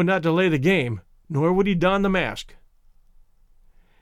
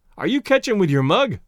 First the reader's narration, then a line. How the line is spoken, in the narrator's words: yelled Blandy, the rival catcher